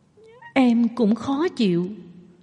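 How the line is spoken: Soft tearful murmur. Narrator (Vietnamese): Hồ Văn Văn gương mặt đầy nước mắt nhỏ giọng nỉ non

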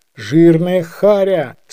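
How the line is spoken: Plain. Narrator (Russian): сказал он вслух

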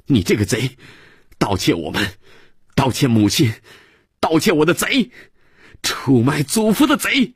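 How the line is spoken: Angry child shouting. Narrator (Chinese): 孩子气哼哼地又喊

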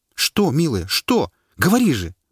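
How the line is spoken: Pleading. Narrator (Russian): Почти взмолился Паша

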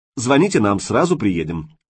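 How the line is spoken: Officer, brisk promise. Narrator (Russian): бодро пообещал участковый

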